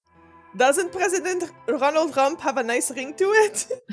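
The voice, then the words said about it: Attempted Russian accent. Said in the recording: “I'm going to try to do a Russian accent... Is that German? Is that German? I don't even know.”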